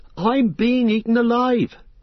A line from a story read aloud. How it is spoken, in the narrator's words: cried Pippin